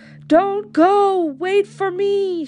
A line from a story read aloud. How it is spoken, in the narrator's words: shouted a man